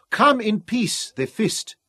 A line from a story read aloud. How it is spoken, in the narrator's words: they cried